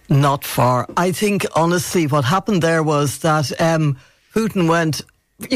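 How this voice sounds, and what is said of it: Usual voice. Nothing is said of it.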